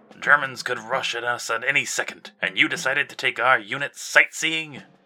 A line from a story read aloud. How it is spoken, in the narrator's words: He barked at Walt